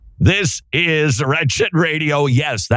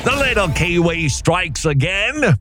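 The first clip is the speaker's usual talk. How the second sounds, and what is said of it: Put-on New Zealand accent. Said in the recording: “that was my New Zealand accent, for better or for worse... mostly for worse”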